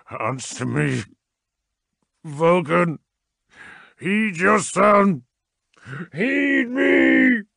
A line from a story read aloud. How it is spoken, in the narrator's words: roared